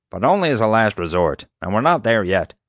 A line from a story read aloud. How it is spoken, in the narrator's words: Doc grumbled